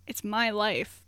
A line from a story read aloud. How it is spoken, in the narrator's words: Andrew answered evenly